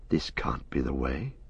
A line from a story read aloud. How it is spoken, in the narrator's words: Frodo whispered